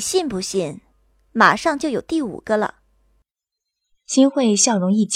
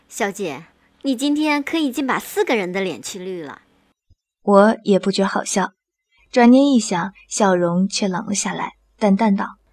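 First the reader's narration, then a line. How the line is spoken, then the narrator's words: Bursting into laughter. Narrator (Chinese): 新慧扑哧一声笑了出来，道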